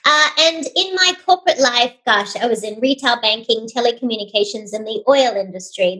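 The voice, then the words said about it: Australian accent. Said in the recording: “for those of you attempting to work out this accent, I hail from Sydney, Australia”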